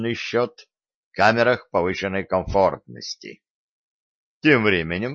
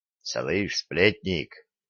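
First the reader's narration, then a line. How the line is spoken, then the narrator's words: Monk's whisper. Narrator (Russian): шепнул Виталику, шедший рядом с ним монах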